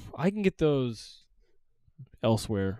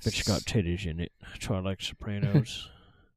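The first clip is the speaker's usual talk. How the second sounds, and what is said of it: Fake impression of Grego. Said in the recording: “doing a fake Grego impression”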